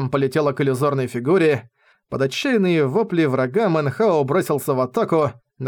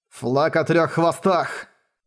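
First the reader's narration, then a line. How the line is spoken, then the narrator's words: Growled. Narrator (Russian): прорычал он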